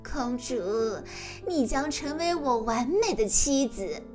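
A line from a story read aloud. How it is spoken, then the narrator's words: Rude mocking laugh. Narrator (Chinese): 跛脚骑士不客气地笑着说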